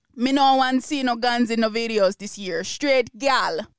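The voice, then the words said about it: Put-on Jamaican accent. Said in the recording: “it's probably in a Jamaican accent ... tell me if my accent was trash or if it was pretty good”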